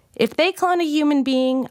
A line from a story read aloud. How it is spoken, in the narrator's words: I shouted back